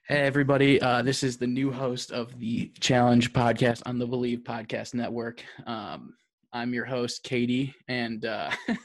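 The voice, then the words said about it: Deep, hoarse voice from laryngitis. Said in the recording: “my voice got deeper ... She's sick right now ... I have laryngitis.”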